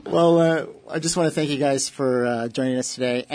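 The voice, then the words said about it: Polished radio announcer voice. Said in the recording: “that's a radio voice right there”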